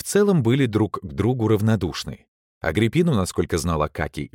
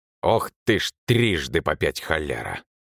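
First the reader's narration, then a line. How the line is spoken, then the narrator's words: Snorting exclamation. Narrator (Russian): Анцибол хмыкнул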